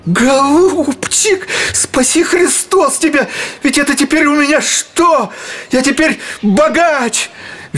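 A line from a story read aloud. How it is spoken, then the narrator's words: Ecstatic squealing. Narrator (Russian): визжал Гаврила в восторге, вздрагивая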